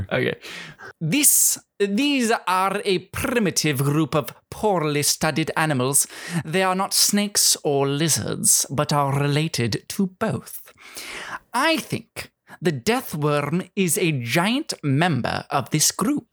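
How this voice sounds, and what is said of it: Reading in a put-on accent. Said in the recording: “Beautiful. I was gonna say beautiful accent. Beautiful, beautiful reading.”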